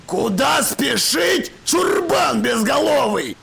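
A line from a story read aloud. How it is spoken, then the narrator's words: Yell. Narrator (Russian): заорал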